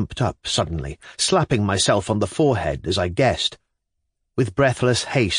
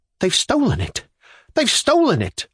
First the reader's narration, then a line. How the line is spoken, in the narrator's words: I cried